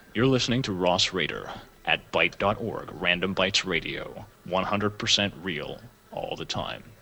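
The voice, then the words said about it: Announcer-style radio voice. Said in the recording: “You could totally play that shit. Yeah. That's the radio voice.”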